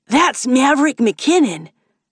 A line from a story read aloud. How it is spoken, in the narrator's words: Devin Richfield yells, body vibrating with excitement